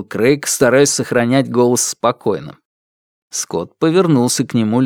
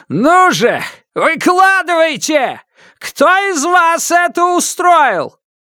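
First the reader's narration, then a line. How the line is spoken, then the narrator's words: Wild shouting. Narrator (Russian): он дико кричал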